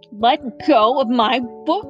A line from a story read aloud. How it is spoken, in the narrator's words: shouted Chuckles